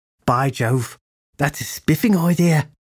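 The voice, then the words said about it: Poor imitation Victorian London accent. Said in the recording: “trying to imitate a perfect Victorian London accent, but failing miserably”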